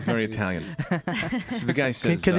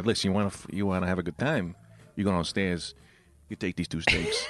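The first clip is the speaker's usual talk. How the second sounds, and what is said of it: Put-on Italian accent. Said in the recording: “Can the guy have an Italian accent? ... Of course he's going to have an Italian.”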